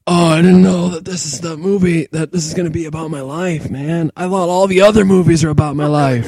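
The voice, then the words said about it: Nick Cage impression. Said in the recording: “Good Nick Cage impression. ... Yeah, you sound just like him.”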